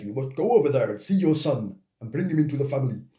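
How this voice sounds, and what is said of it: Poor imitation of deep voice, sounds Welsh. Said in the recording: “That was a poor impression. ... I never knew that James Earl Jones was Welsh.”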